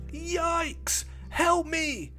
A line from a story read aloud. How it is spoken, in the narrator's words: he shouted